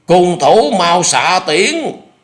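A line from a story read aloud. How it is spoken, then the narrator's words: Loud shout. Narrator (Vietnamese): Trương Dực lồng lộng hét lớn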